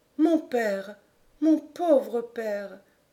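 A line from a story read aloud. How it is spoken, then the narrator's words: Murmured. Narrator (French): murmura-t-elle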